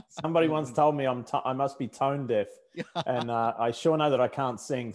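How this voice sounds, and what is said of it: Australian accent. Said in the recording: “I haven't lost my Australian accent after all these years ... let's hope the accent stays forever”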